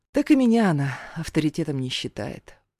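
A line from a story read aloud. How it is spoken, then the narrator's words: Sighing. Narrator (Russian): вздохнула мама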